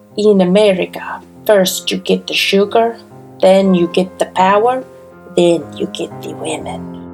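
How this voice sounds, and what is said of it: Deliberately bad put-on accent. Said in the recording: “my bad accent”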